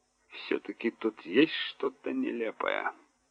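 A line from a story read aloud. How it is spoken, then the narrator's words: Muttered. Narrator (Russian): пробормотал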